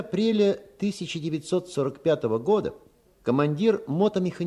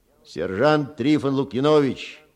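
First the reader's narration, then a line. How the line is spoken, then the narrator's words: Deep rolling Belarusian bass. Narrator (Russian): пробасил статный красавец с той ракочущей интонацией, какая бывает у коренных белорусов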